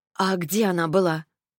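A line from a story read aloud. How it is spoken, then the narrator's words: Hoarse, tired sigh. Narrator (Russian): Ретта вздохнула, хрипло и устала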